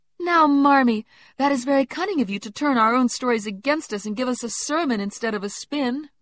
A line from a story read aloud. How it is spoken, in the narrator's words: cried Meg